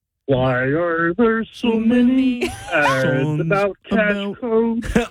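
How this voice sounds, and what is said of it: Kermit the Frog voice. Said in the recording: “Kermit the Frog here. ... Oh, Kermit.”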